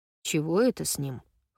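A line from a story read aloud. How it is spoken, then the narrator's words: Snorting. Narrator (Russian): хмыкнул Линд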